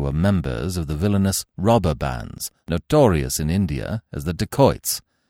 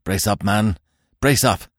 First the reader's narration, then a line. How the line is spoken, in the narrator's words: cried Smith, and in his strenuous, grimly purposeful fashion